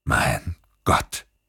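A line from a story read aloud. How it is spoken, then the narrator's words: Croaking. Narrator (German): krächzte er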